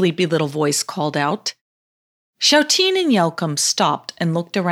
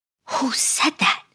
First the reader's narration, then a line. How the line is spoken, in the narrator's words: whispered Shouteen